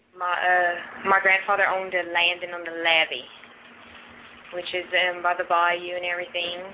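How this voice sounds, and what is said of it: Cajun accent, Australian-Texas sounding. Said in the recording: “I got Cajun ... Maybe she's Cajun now. The Australian / Texas accent equals Cajun”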